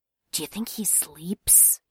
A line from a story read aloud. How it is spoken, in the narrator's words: murmured in Jane's ear